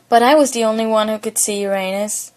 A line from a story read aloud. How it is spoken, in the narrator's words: He sighs and unconsciously ends up muttering